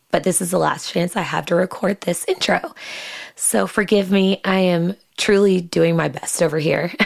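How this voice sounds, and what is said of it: Hoarse, nearly lost voice. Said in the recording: “as you can probably tell, my voice is almost completely gone”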